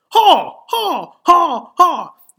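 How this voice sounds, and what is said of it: Imitates a horrendous loud noise. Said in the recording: “this absolutely horrendous noise ... This is my impression of the noise.”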